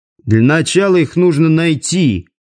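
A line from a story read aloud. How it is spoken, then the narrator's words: Grumbled. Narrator (Russian): проворчал Димка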